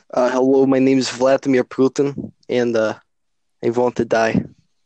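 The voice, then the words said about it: Put-on Russian accent. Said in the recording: “whose Russian accent is better”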